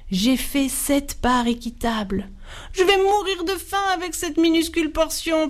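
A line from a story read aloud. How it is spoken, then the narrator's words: Whining youngest one. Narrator (French): pleurnichait le plus jeune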